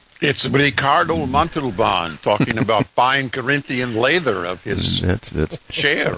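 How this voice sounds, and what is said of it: Bad Ricardo Montalban impression. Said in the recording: “It's a terrible accent.”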